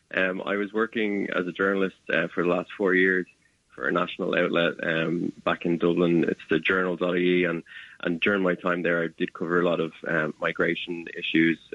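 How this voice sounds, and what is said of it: Irish accent. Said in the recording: “I do have an Irish accent”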